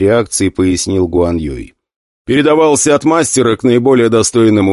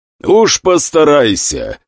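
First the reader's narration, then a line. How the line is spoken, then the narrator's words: Laughing. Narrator (Russian): рассмеялся глава клана Фэнг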